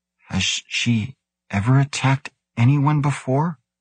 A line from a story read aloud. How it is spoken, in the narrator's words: His voice shaky, Grant heard himself ask